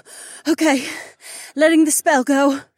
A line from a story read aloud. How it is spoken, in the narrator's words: Sienna gasped